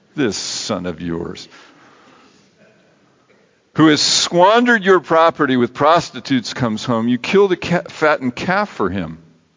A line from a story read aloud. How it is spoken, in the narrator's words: with a sneer in your voice